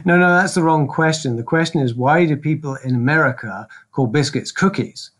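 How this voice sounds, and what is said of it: Non-American, British English accent. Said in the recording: “you can tell from his accent that he's not American”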